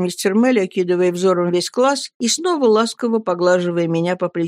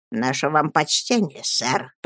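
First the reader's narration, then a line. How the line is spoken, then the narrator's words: Wheezing director. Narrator (Russian): просипел директор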